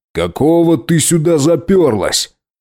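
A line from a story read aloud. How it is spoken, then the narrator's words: Angry growl. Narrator (Russian): зарычал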